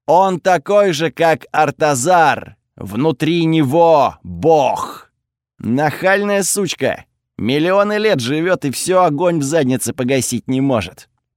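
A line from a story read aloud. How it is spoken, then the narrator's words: Through gritted teeth. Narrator (Russian): процедил Готфред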